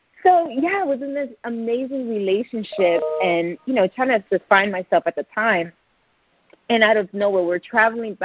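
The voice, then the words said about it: Puerto Rican accent. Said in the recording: “My Puerto Rican accent may come out.”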